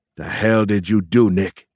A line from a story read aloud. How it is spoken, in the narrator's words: he growled